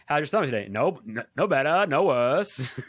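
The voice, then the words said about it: Well-done imitated character accent. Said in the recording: “She's got the accent down too... You're so good at that accent.”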